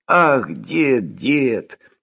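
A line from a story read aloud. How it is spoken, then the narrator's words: Muttering. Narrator (Russian): бормотал Булдаков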